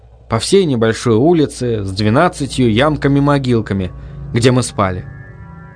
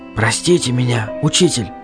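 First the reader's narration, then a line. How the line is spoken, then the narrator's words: Whispering. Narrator (Russian): зашептал я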